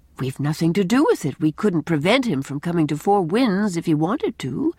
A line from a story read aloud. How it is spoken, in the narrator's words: said Anne quickly